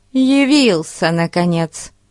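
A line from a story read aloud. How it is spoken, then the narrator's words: Grumbling. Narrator (Russian): проворчала она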